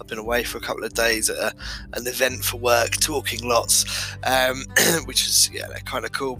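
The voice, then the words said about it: Slightly hoarse, losing voice. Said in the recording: “You can probably hear I'm slightly losing my voice.”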